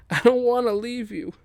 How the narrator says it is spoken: Gale cries out to her mother

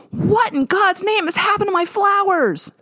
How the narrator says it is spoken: Her voice was so loud and high-pitched that it could have shattered glass

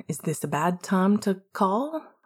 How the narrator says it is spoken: Remus asked hesitantly

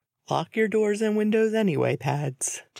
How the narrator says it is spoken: James said with a chuckle

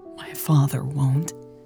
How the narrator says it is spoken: Lex said, her voice barely above a whisper

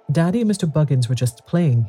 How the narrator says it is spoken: he said

